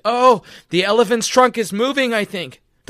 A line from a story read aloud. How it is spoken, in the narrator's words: Suddenly he cried